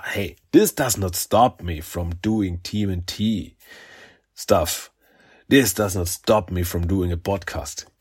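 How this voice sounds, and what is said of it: Sniffly voice with a cold. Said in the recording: “I've got a little cold. ... sniveling or anything, it's not that I'm crying ... a little bit, uh, sick”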